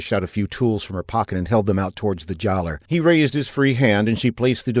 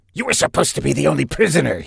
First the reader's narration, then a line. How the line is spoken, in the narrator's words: he spat